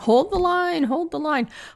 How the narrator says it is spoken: Jamie and Randall Tarley keep yelling

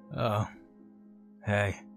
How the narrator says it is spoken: he grumbled

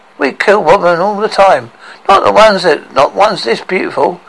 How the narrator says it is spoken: cried out a wide-eyed dwarf

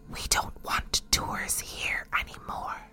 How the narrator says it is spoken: a little voice that whispered

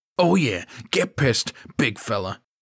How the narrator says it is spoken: the angry man snarled, smirking

